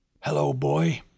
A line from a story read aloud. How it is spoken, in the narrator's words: he croaked